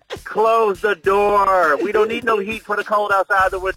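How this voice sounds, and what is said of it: Stern fatherly daddy voice. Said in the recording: “imitation ... you sound good saying it, too ... I got that daddy voice”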